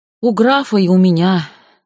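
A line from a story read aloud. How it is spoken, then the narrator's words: Sighing. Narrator (Russian): вздохнул дворецкий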